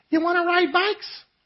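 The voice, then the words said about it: Imitated young boy's voice. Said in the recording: “In his prepubescent voice.”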